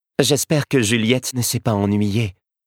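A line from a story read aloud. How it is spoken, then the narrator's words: Sighed. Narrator (French): soupira Charlotte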